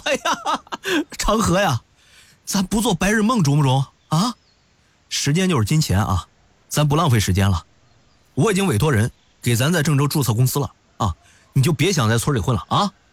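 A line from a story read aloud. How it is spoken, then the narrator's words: Hearty loud laughter. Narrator (Chinese): 端阳哈哈大笑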